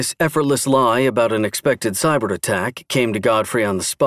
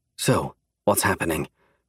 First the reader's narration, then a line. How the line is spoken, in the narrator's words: Godfrey whispered